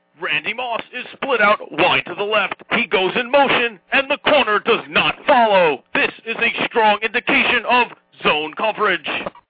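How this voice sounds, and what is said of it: Ron Jaworski impression. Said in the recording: “I do a great Ron Jaworski impression”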